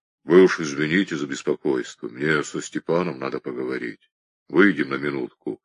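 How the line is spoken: Hoarse, bass voice. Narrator (Russian): простуженно забасил

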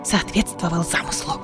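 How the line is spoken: Barely audible repeat. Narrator (Russian): едва слышно повторила Айлина

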